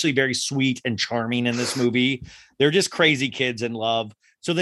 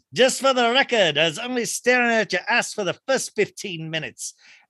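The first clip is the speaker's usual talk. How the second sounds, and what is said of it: Rough put-on accent quoting a character. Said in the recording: “my accent is a little rougher than he comes off”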